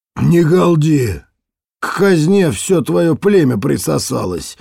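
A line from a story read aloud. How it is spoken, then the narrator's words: Rough reply. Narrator (Russian): грубо ответил ей кто-то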